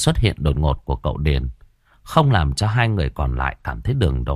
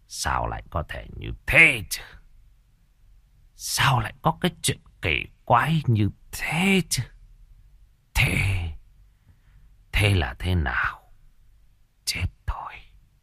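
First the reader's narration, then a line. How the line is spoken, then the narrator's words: Muttering to himself. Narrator (Vietnamese): Ông Bá Điền lẩm bẩm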